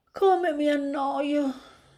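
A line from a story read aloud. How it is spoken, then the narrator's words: Tortoise sighing. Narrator (Italian): sospira la tartaruga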